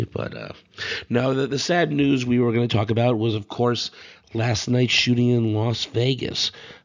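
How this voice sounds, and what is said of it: Gravelly sick voice. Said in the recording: “forgive my voice. I'm a little sick today, so my voice is a little gravelly”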